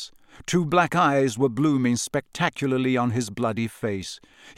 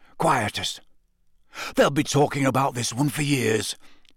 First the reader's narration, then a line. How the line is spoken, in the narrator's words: he said hoarsely